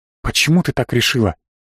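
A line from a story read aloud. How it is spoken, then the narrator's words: Whisper. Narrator (Russian): по-прежнему разговаривали шепотом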